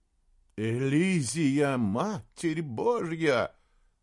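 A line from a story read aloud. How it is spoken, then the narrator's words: Trembling voice, man. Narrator (Russian): сказал Саймон дрогнувшим голосом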